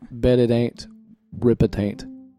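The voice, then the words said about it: Unusual hard-to-understand accent. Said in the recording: “Say it again so people can understand your weird accent.”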